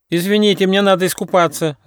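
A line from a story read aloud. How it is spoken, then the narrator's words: Shouting. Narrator (Russian): закричал утконос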